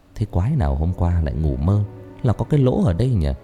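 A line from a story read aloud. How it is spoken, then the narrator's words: Amused mutter. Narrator (Vietnamese): Thành tủm tỉm cười lẩm bẩm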